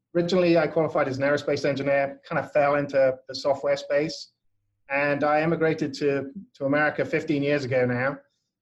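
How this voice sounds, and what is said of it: English accent. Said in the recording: “I come from England originally. You can probably tell from my slightly odd accent.”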